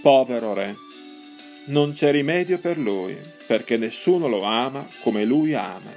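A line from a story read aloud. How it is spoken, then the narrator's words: Old man murmuring sadly. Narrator (Italian): L'anziano tristemente mormorò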